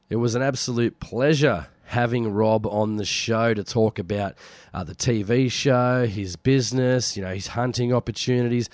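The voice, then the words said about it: Sick-sounding voice. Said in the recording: “I'm still a little bit sick. You can probably hear from my voice.”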